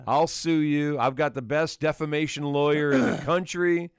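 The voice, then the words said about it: Put-on Southern country accent. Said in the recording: “I don't have a country enough accent.”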